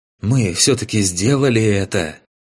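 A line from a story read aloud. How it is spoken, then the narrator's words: Young man, hoarse, out of breath. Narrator (Russian): Немного отдышавшись, хриплым голосом произнес молодой некромант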